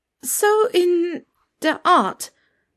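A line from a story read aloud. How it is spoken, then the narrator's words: Stammering. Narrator (German): stammelte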